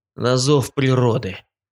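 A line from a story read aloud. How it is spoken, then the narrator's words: Muttered over shoulder. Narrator (Russian): Буркнул через плечо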